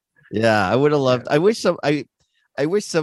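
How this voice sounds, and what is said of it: Usual voice. Nothing is said of it.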